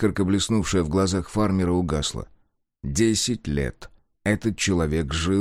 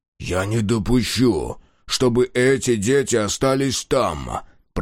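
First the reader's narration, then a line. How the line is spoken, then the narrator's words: Growl. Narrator (Russian): прорычал Мюррей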